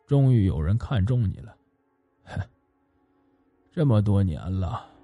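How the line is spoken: Murmuring. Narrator (Chinese): 喃喃的说道

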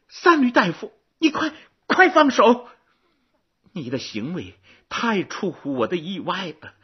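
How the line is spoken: Loud feigned cry. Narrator (Chinese): 郑袖大声的疾呼

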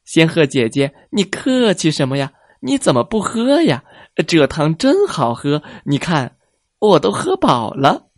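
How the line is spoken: Smiling. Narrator (Chinese): 狐狸笑着说

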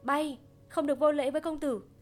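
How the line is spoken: Startling shout from behind. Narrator (Vietnamese): một tiếng hét ở sau lưng khiến mọi người kinh hoàng

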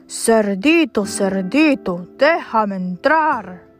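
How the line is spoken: Growling. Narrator (Spanish): gruñó

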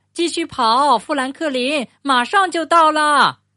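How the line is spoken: Shouting. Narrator (Chinese): 兔子喊道

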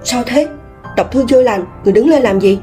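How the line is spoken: Frightened hurried whisper. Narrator (Vietnamese): Trung Xuân Kế sợ hãi, vội vàng khẽ nói

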